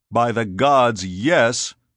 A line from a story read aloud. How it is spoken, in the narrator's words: Scipio roared